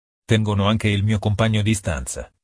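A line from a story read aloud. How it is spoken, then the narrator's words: Plain. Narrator (Italian): rispose Alan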